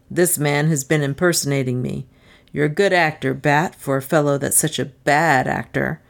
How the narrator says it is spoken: taunted

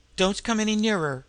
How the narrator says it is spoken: she cried out sharply

